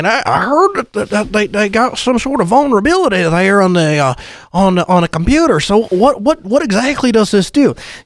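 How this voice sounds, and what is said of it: Imitates an old grandfather's voice. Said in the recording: “that was a good impression ... that was a good impression of Grandpa”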